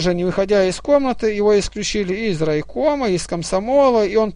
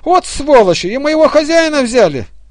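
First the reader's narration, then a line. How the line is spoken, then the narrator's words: Exclaiming. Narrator (Russian): Товаровед воскликнул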